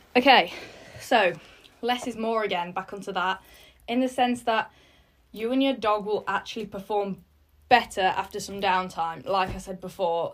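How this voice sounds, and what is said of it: Slightly out of breath. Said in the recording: “You can probably tell I'm still a little bit out of breath.”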